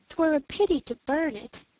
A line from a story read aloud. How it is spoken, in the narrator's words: cried the princess, sighing